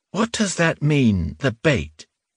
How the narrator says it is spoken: she asked

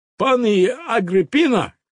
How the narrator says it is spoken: cried the little Pole

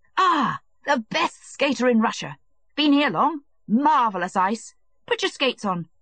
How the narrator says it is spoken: he shouted to him

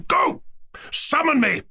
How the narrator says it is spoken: I roared

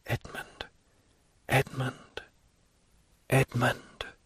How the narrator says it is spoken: her voice involuntarily murmured softly

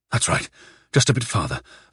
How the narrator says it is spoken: panted the blood coursing through his temples

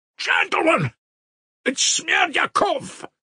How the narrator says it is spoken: he shouted suddenly at the top of his voice

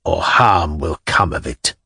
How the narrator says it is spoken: he added in a fatherly tone, dropping his voice

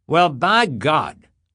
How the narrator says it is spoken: the youth shouted

